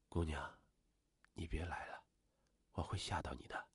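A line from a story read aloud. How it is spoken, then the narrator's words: Soft voice. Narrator (Chinese): 他轻声说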